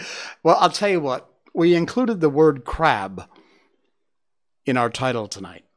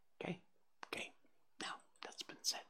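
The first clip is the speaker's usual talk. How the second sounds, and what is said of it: Whispering voice. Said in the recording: “Why am I whispering? I sound like Joe Biden. I sound like creepy Joe Biden.”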